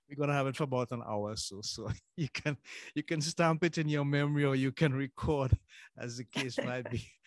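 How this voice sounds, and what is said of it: Trinidadian accent. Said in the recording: “that Trinidadian excellent accent”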